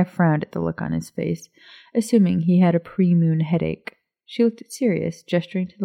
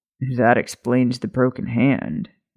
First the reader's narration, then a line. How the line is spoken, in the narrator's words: Remus muttered